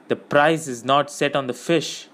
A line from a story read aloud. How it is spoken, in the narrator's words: said Faramir